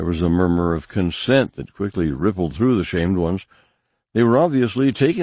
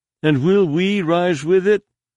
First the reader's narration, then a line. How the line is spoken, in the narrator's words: called out one of the shamed ones off to his left